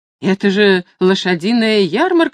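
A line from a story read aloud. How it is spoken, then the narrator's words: Exclaiming. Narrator (Russian): воскликнула Люсинда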